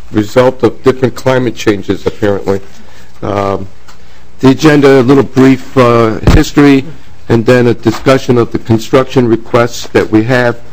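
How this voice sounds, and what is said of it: Slightly hoarse, throaty voice. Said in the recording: “I have a little frog in my throat.”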